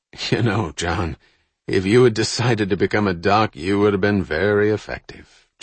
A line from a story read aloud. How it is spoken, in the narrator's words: Jack replied with a chuckle